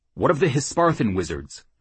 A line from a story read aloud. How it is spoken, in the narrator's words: Jackal asked quickly